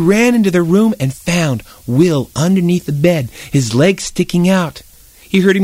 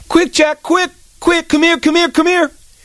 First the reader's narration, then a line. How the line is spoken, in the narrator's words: yell